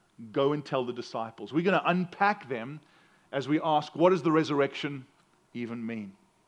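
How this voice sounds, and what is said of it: South African accent. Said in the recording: “bear with my accent. I'm American, but I'm from South Africa, and that means I have an accent that makes me sound smarter than I really am”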